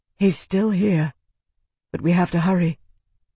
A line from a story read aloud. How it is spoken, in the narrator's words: Isana felt her heart lurch in relief, and she murmured